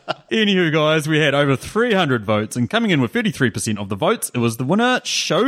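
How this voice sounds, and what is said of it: Usual voice. Nothing is said of it.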